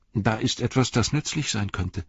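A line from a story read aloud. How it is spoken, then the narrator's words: Plain. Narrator (German): sagte er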